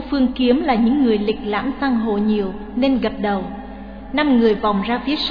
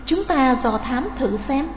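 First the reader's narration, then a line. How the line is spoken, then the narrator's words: Soft. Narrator (Vietnamese): Nàng bảo khẽ Ngũ Phương Kiếm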